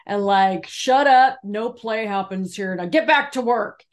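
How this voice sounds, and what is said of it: Stern serious boss voice. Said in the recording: “This is our serious voice.”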